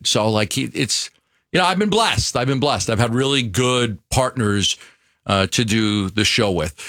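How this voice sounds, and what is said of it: New York accent. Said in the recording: “Your New York accent must have been way worse 30 years ago ... Like, it's still bad ... people know I'm from New York”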